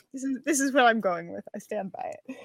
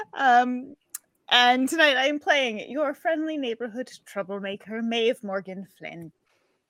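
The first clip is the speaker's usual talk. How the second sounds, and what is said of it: Slides into a character accent. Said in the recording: “I love how she just slides into it. It's like ... is talking, and then like every word of the sentence becomes Maeve Morgan Flynn. It's wonderful. ... I don't have an accent, because I'm nowhere near as good as”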